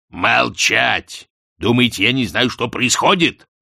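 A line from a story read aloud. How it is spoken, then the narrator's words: Growled. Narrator (Russian): прорычал Астфгл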